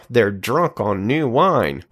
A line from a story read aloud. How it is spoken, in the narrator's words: some sneered and said